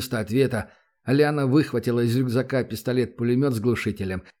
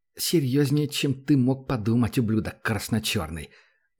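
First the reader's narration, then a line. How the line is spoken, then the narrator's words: Angry hiss. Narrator (Russian): Зло прошипела она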